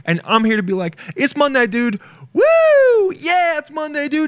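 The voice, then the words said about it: Screaming excitedly. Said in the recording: “Like I'm screaming right now, dude.”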